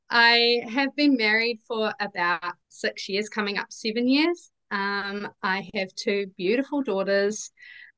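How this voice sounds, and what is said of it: New Zealand accent. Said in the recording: “I am a Kiwi, as you can obviously probably tell from my accent. ... can't really hide that one.”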